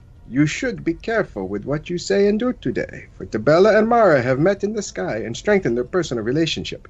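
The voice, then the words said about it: Put-on Khajiit accent. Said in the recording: “Khajiit accent got better when he drank”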